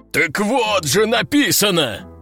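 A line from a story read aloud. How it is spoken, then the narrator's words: Howling, general. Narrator (Russian): взвыл генерал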